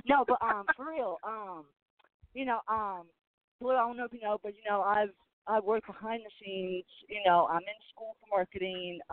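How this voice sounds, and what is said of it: Country Southern US accent. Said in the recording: “People say I'm country. ... I don't know why I sound country.”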